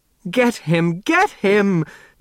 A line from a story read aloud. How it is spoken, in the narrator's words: screeched